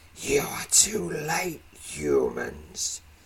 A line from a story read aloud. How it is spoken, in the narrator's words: he hisses